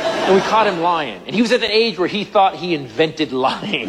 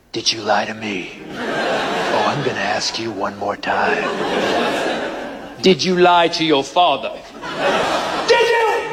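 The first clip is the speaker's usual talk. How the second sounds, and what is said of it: Deep, menacing stern parent voice. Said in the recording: “you need to develop a second voice. I call it the "you're dead" voice ... My voice is a combination of Barry White, Clint Eastwood, and Darth Vader”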